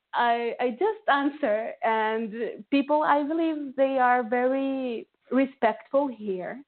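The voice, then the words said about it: Latino accent. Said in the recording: “And my accent, of course, is very Latino.”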